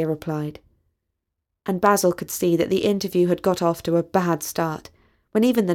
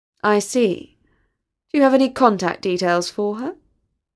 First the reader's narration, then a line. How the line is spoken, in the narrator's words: asked in a flat voice